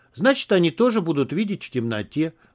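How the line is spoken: Calm reply. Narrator (Russian): спокойно ответил Бай

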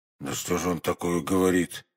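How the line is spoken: Muttering. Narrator (Russian): пробормотал Портос

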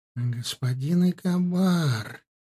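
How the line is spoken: Sweet, languid drawl. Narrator (Russian): Сладким томным голосом тянула она

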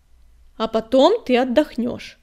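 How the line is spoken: Stern sandstorm command. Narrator (Russian): строго велела песчаная буря

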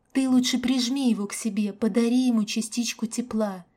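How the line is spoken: Whisper. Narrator (Russian): прошептала я

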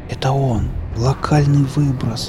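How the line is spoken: Spellbound whisper. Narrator (Russian): завороженно прошептал я

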